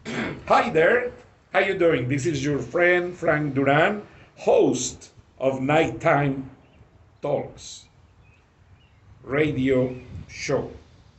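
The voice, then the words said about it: Heavy Spanish accent in English. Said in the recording (Spanish): “en inglés con mi acento pesado”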